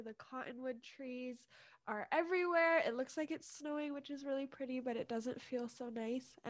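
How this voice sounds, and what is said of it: Unwell, allergy-affected voice. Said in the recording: “excuse my voice, but my allergies are so bad today”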